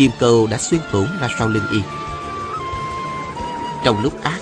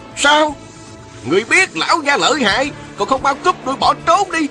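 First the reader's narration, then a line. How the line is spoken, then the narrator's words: Rough, scolding shout. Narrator (Vietnamese): Một giọng thô lỗ quát mắng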